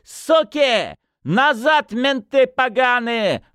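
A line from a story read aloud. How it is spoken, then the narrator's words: Yelling from inside. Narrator (Russian): орали из хаты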